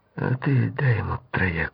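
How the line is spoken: Near whisper. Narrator (Russian): почти шепотом сказала Наташа

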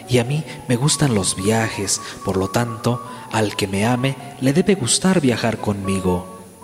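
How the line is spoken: Swallow murmuring. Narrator (Spanish): murmuraba la golondrina

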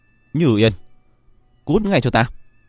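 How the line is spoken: Startled loud shout. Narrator (Vietnamese): Diệp Viễn giật nảy mình, hét lớn

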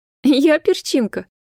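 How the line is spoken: Girlish giggle. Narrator (Russian): Захихикала, как старшеклассница, совсем не чувствуя былого раздражения

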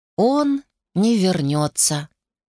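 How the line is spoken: Boy speaking slowly. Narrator (Russian): медленно проговорил мальчик

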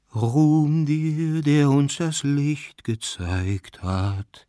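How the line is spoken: Singsong voice. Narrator (German): sprach Jakow Iwanitsch mit singender Stimme

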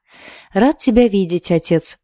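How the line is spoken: Pleased, fairly joyful prince. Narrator (Russian): довольно радостно произнес принц

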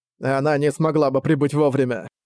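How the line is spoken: Grumbling guide. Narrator (Russian): проворчала гида

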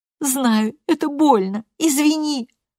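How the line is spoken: Sobbing. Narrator (Russian): всхлипывает Роуса

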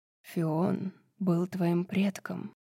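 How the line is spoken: Reverent mutter. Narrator (Russian): с явным благоговением пробормотал Азриэль

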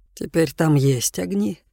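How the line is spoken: Soft. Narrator (Russian): мягко произнес Джошуа

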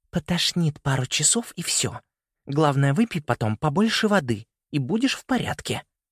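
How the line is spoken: Whisper through teeth. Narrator (Russian): прошептала она сквозь зубы

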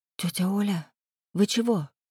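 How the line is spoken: Fearful whisper. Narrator (Russian): Опасливый шепот

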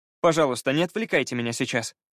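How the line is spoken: Commanding, unpleading tone. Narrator (Russian): велел он совсем непросительным тоном

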